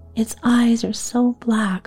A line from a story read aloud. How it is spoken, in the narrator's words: Laura sobbed